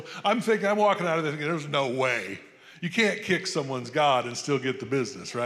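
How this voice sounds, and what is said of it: Usual voice. Nothing is said of it.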